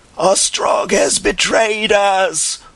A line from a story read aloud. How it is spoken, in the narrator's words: one man bawled in a hoarse voice again and again